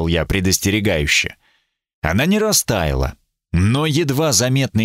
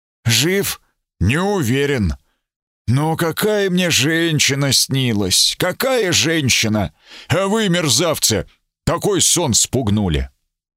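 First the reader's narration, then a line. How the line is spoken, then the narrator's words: Hoarse wheeze. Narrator (Russian): Он прохрипел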